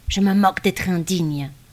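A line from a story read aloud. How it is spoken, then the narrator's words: Old man grumbling. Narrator (French): grogna l'ancien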